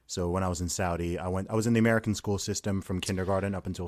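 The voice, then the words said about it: British speaker with American-sounding accent. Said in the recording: “the least British accent I've ever heard of a British person ... I picked up the accent there, and it's softened a little bit”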